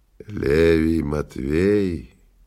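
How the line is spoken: Hoarse, sick man. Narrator (Russian): хриплым голосом спросил больной

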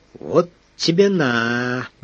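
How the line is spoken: Drawled. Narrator (Russian): протянул Дрозд, услышав частую пальбу

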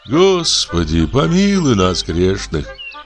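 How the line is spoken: Sighing. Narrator (Russian): вздохнул благолепный Сергей Сергеевич

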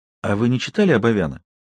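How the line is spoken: Sudden question. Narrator (Russian): Майрик неожиданно спросила

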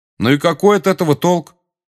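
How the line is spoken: Loud question. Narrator (Russian): громко спросил Гарри

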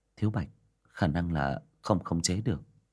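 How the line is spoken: Sighing. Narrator (Vietnamese): Diệp Đình Vân thở dài

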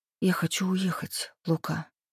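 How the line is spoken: Sudden whisper. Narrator (Russian): вдруг прошептала я

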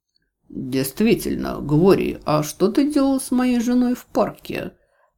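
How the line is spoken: Strained forced calm. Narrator (Russian): Вопрос Шерьяна прозвучал спокойно, но я видела, каких трудов ему это стоило

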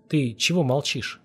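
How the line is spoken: Gentle old man. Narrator (Russian): мягко спросил старик

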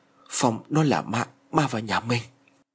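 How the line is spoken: Trembling mutter. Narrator (Vietnamese): Tay chân của ông run rẩy và lẩm bẩm

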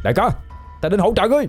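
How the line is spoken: Loud shout. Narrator (Vietnamese): Ba Ngỗng hét lớn

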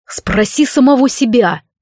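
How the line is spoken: Snapped. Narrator (Russian): огрызнулся он

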